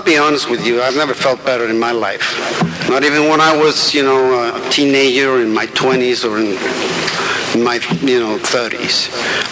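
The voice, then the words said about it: Speaks with a noticeable accent. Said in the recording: “One thing I have not been able to change, and that's been my accent, you know. So bear with that, please.”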